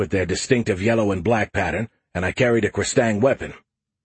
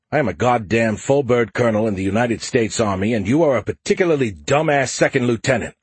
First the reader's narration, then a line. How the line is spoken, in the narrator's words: I said hotly